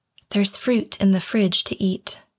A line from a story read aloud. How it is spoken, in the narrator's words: As faint as a whimper, her mother whispers